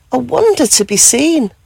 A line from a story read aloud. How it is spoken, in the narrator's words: she gasped with joy